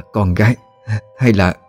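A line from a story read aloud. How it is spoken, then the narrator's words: Stammering with regret. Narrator (Vietnamese): có một thoáng ân hận, bà ấp úng nói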